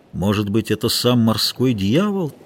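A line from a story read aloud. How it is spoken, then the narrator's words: Quiet. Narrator (Russian): тихо проговорил матрос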